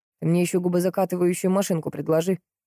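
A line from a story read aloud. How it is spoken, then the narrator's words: Snorted. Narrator (Russian): фыркнул Андрей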